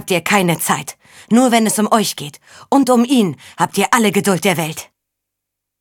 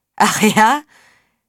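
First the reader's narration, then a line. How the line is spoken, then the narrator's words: Bitter laugh. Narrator (German): Er lachte verbittert auf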